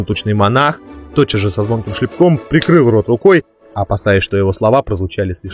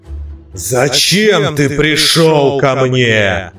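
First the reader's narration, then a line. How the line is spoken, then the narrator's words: Angry roar. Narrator (Russian): гневно проревел Гефестус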